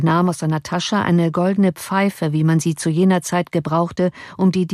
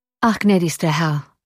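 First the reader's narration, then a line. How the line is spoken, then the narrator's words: Sad. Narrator (German): erwiderte traurig der Oberst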